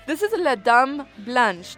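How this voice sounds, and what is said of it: Put-on French accent. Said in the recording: “my French accent ... Perfecto. Très bien.”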